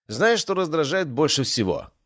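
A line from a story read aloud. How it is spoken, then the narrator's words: Shouted. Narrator (Russian): крикнул я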